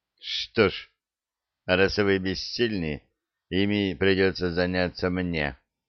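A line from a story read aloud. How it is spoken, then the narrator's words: Cold queen. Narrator (Russian): холодно сказала королева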